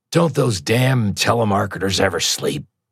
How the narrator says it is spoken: he grumbled

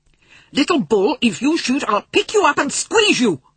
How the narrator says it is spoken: Omri cried

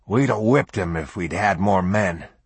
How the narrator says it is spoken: the big sergeant growled

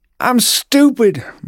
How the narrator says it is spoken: Marigold shouted through tears

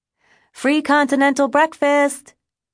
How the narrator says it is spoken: yelling

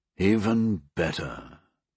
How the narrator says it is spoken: Bayliss groaned inwardly

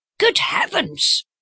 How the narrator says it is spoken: cried Miss Howard

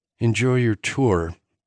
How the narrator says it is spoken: Arden muttered

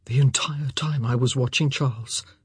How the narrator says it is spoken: he said, his voice suspiciously hoarse

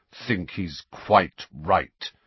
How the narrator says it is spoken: said Sirius through clenched teeth

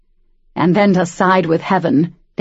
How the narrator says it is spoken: Daniel snarled

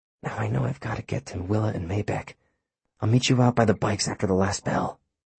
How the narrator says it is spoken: Finn whispered dryly

